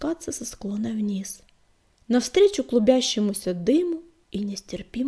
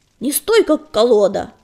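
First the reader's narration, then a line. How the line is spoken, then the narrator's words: Barking through mouthful of fur. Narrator (Russian): рявкнула она сквозь забившуюся в рот шерсть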